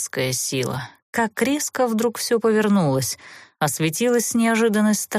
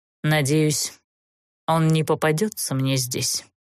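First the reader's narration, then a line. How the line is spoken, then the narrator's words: Cold reply after pause. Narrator (Russian): помолчав, холодно ответил Даггард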